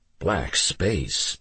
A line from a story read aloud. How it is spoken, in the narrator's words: Mickey whispered